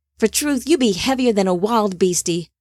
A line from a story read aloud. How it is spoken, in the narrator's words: Tafara grunted